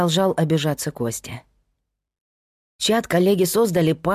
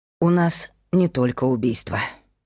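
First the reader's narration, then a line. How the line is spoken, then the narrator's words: Sighing. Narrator (Russian): вздохнул Павел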